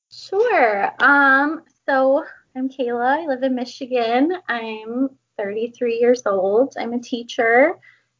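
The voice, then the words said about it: Cute regional accent. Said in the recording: “you have the cutest accent ... Super cute voice.”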